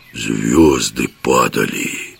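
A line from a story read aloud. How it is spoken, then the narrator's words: Enchanted whisper. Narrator (Russian): зачарованно прошептал жихарь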